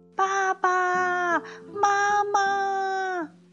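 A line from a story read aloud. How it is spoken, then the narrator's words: Baby creature crying, calling. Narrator (Chinese): 它不断的叫啊叫啊，小翼龙哭着哭着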